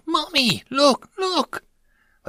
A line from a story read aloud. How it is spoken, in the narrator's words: An immature human female squealed out